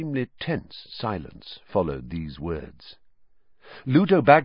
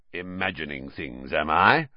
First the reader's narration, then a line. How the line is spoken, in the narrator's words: growled Moody